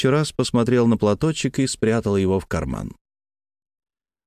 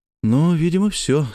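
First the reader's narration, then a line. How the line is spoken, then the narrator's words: Relieved exhale. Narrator (Russian): с облегчением выдохнул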